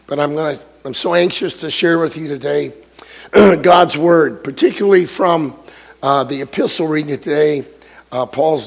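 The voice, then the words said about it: Voice sounds strained, not normal. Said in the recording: “you're going to have to bear with me. My voice is a little bit conflicted”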